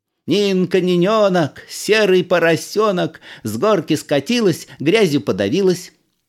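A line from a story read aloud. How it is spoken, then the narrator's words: Shrill shouting. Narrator (Russian): выкрикивая пронзительным голосом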